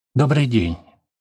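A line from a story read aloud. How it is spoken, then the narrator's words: Hurried speech. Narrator (Russian): торопливо произнес незнакомец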